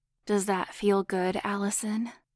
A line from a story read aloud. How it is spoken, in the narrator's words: Nadia purred seductively